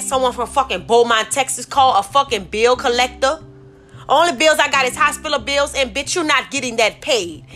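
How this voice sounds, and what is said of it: Angry, irritated ranting voice. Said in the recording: “I'm kind of fucking pissed ... if I'm a little angry in my fucking voice”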